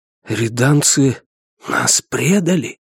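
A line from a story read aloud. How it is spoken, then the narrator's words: Shocked whisper. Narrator (Russian): наконец прошептал один из потрясенных командующих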